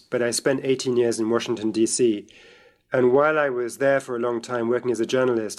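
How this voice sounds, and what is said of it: British accent. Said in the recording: “I grew up in Britain, as you can tell from my voice”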